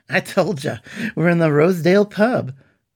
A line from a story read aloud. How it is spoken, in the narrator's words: laughed Shura